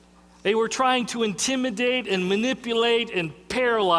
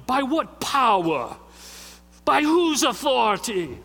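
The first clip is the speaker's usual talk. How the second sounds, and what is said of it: Put-on English accent. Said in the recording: “I'm sure they had English accent.”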